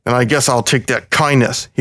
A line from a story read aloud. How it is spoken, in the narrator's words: growled